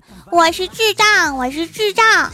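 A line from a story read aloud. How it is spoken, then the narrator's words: Loud shout. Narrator (Chinese): 郭晓霞面对全校大喊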